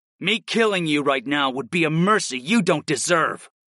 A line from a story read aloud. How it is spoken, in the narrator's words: I snarled at him